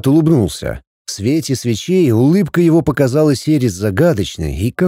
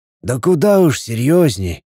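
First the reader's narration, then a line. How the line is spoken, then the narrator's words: Sighing. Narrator (Russian): вздохнул Игнат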